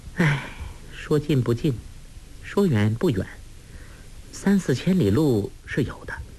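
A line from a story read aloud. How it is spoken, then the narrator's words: Soft sigh. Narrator (Chinese): 黄蓉轻轻叹了口气说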